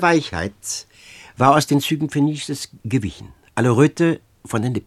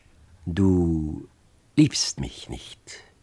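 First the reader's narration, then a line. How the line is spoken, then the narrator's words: Slow, toneless, detached. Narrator (German): sagte langsam und tonlos, als spräche ein anderer aus ihr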